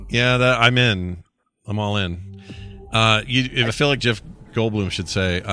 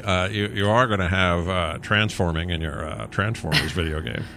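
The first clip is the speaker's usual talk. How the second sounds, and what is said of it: Imitates another person's voice. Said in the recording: “bad Jeff Goldblum impression ... becomes the Joker very quickly”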